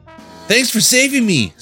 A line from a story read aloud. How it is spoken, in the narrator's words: said a nephew